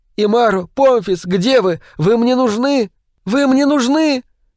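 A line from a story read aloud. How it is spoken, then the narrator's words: Screamed. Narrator (Russian): вновь девушка закричала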